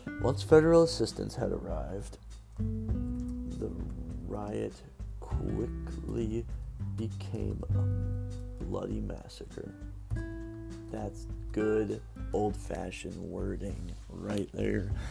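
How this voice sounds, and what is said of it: Rough, groggy morning voice. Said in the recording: “My voice sounds weird. I think I'm thirsty or have like morning voice, but at night”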